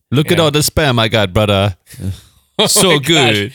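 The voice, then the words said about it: Put-on Jamaican accent. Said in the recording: “your accent is not even capturing it ... That's actually Jamaican. A really good. No, that's a good.”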